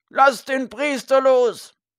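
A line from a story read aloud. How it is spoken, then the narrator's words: Loud distant shout. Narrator (German): rief jemand laut, weit drinnen in der grauen Masse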